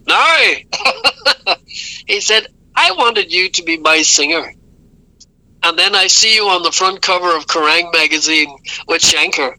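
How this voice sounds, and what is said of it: Put-on Northern Irish accent. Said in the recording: “in his best Northern Ireland accent”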